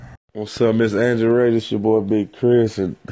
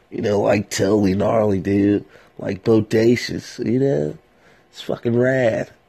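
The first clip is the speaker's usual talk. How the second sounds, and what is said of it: California surfer accent, congested nose. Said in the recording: “my little surfer accent, a little Cali surfer, but my nose and stuff a little stopped up”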